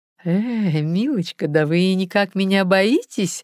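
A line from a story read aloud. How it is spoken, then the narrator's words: Woman laughing loudly. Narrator (Russian): расхохоталась женщина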